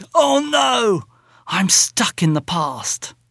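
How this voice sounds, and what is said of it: Very dramatic voice. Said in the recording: “in a very dramatic voice”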